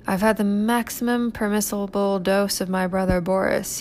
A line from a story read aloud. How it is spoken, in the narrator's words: said